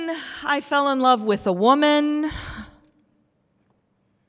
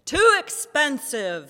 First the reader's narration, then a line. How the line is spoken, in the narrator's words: barked